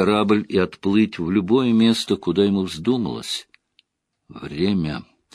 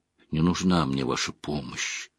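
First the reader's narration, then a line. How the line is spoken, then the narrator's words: Quiet. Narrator (Russian): тихо произнес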